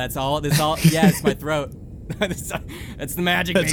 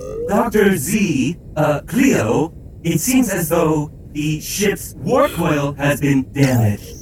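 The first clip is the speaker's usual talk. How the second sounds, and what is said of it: Character voice of ship's AI. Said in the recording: “You hear Reese come over the AI of the ship speak ... I'm only gonna do this voice once ... This is my attempt.”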